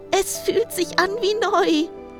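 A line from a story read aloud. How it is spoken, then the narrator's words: Happy call. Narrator (German): rief glücklich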